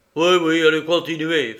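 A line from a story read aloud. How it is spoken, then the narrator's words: Gruff. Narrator (French): fit mon associé d'un ton bourru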